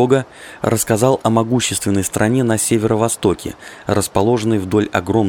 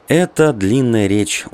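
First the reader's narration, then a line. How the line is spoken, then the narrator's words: Tired. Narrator (Russian): устало сказал Кедога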